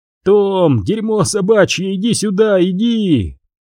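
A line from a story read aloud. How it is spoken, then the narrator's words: Giggling, yelling, barking like dog. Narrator (Russian): Он хихикал, орал, вопил, лаял, как собака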